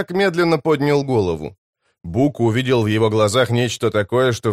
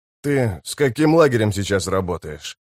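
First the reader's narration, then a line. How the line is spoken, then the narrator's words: Calm question. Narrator (Russian): спокойно поинтересовался капитан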